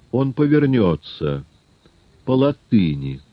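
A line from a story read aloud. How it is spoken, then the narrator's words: Calm. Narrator (Russian): спокойно произнес Жюбе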